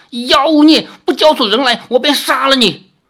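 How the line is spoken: Shrill laughing. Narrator (Chinese): 狐妖尖声长笑

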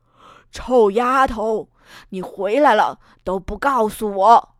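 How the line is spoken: Loud melodic roar. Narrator (Chinese): 那一声吼叫声传遍了整个竞技场的上方，声音中带着几丝旋律

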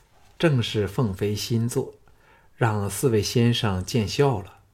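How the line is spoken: Calm, modest. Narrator (Chinese): 凤飞淡淡的说

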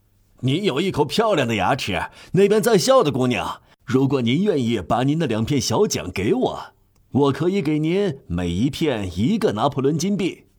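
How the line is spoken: Tooth-puller's sudden call. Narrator (Chinese): 那个拔牙的突然叫道

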